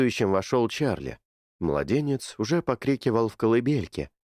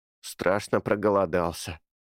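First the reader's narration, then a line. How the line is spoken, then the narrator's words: Snorting. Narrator (Russian): хмыкнул Эрни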